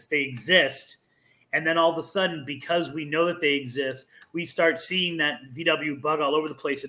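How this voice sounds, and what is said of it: Boston accent. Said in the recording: “I love the Boston accent”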